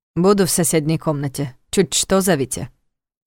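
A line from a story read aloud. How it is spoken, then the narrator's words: Stern order. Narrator (Russian): строго велел он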